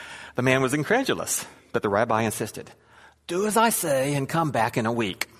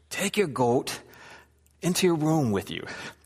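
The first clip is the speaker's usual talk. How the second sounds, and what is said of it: Put-on accent for a rabbi. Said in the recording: “I'm not quite sure what kind of accent the rabbi had, but that's how he sounded.”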